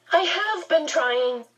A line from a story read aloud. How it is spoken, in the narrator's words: Charles Wallace said, his voice high and troubled